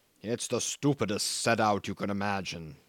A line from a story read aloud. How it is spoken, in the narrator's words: he pursued hotly